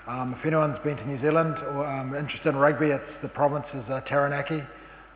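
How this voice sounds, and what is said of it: New Zealand accent. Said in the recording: “Probably from the accent you can tell that I'm from New Zealand”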